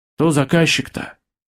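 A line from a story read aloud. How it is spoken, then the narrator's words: Sighing. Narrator (Russian): вздохнул Женя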